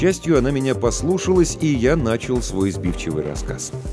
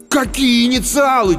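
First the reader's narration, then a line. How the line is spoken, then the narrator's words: Almost shouting. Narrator (Russian): чуть ли не крикнул я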